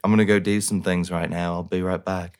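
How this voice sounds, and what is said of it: Put-on accent. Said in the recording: “It was a great accent, by the way.”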